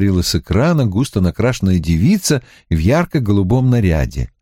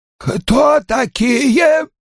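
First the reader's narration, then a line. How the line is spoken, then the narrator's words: Hoarse wheeze. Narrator (Russian): прохрипела она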